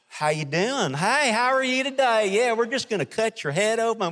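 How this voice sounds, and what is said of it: Southern American accent. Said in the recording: “A southern accent's a little, you know”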